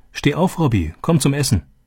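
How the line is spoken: Calling out. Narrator (German): rief

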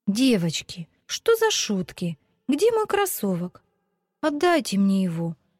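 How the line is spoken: Tearful exclamation. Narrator (Russian): со слезами на глазах воскликнула Вика

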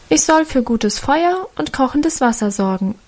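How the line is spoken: Plain. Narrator (German): antwortete sie

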